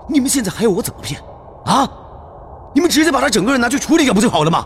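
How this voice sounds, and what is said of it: Loud, agitated shouting. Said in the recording (Chinese): “您小声点，别激动”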